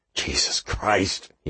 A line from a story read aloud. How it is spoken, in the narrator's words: he muttered